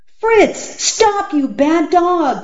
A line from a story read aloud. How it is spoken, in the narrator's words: cried Alan